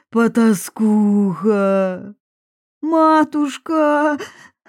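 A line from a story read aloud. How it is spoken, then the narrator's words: Tearful sobbing. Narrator (Russian): всхлипнула, вытирая слезы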